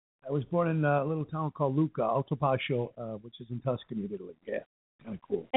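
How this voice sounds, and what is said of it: New York accent. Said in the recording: “How come you still have that New York accent? ... they talk like you ... that's like kind of a Cicero accent almost.”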